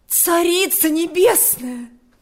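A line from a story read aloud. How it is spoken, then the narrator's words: Exclamation. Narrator (Russian): воскликнула она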